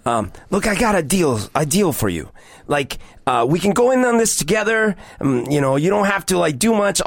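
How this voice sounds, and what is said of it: Mobster-style accent impression, self-described bad. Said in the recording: “what would he sound like? ... I'm going to butcher this accent. ... It's so bad.”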